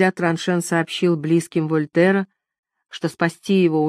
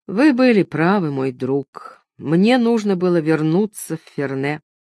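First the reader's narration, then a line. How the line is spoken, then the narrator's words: Sad, weak voice. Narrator (Russian): Придя в сознание, Вольтер печально произнес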